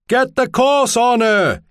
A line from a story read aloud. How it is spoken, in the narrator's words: he shouted